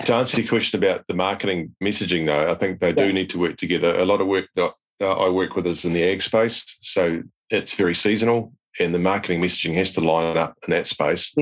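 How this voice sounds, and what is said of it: Noticeable accent, 'agri' sounds like 'egg'. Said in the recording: “Sorry, it's the accent. ... I thought you said egg business”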